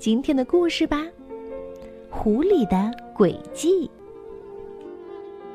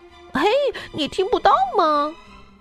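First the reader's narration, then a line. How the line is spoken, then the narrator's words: Shouted. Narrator (Chinese): 兔子喊道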